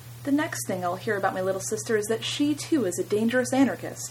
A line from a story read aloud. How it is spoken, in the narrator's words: I must have been very dramatic because Helena exclaimed